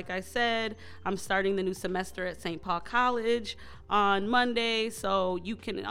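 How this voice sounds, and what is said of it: Usual voice. Nothing is said of it.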